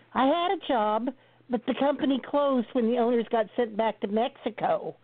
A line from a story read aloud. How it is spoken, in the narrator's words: the old gal whined